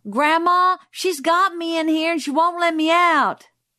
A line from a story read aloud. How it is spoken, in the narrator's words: Frances came to the door and yelled